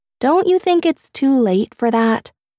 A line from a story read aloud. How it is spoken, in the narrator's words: I sighed